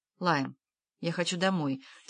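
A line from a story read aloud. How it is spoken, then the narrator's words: Quiet. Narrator (Russian): тихо сказала она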